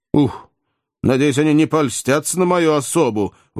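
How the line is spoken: Exclamation. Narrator (Russian): воскликнул Джо

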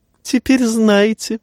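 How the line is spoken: Remark with a giggle. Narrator (Russian): заметил, хихикнув, Варис

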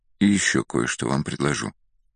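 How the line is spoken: Very quiet whisper. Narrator (Russian): уже совсем тихо произнес, даже прошептал Ахимас

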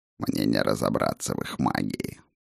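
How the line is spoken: Creaky voice. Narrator (Russian): проскрипел мой бесценный помощник

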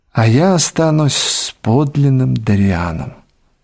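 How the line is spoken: Sad. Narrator (Russian): сказал он грустно

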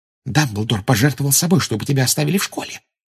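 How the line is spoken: Secretive whisper. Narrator (Russian): прошептала Гермиона, прикрывшись книжкой, чтобы не увидела Амбридж

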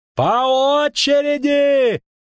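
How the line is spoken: Bandaged man yelling. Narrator (Russian): орал перевязанный

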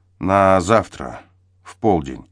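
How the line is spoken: Forced out after a breath. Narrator (Russian): на миг вздохнувшись, выдавил он

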